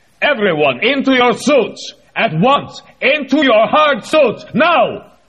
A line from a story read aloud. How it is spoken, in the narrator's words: Vosnesensky stopped in mid-word and bellowed